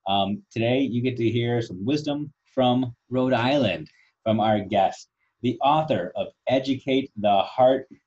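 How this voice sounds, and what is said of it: Midwestern American drawl. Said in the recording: “my boring Midwestern drawl, throwing the words pop and A around”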